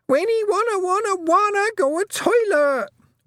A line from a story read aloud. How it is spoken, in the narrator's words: Wentworth shrieked